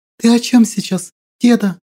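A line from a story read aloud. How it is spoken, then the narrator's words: Trembling voice. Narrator (Russian): спросила вона подрагивающим голосом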